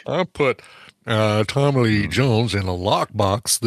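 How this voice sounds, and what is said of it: Imitates another person's voice, poorly. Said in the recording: “This is my worst impersonation ever. ... really bad. ... I'm trying to do the Daryl Hammond Al Gore.”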